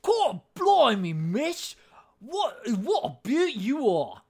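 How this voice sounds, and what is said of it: Loud, swallowed chimney sweep accent. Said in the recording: “a. Chimney sweep ... really creepy and gross ... it's really loud and it's really like swallowed. It's a very interesting accent.”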